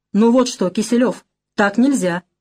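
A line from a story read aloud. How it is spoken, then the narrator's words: Stern bossy address. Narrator (Russian): Строго, поначальнически обратился парень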